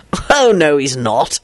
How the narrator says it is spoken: Elizabeth sighed

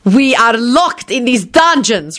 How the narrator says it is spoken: Radu screamed wrathfully

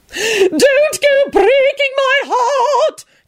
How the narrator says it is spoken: Caroline screamed dramatically

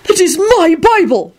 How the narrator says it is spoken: Park shouted angrily

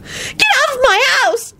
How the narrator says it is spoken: Loretta screamed

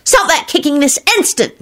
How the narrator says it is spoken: She snapped

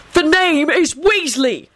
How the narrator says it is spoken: Arthur thundered back

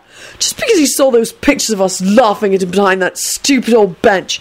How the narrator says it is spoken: he spat out sullenly

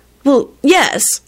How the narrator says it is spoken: she responded irritably

